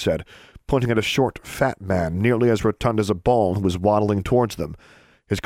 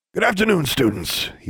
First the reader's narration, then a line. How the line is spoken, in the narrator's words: wheezed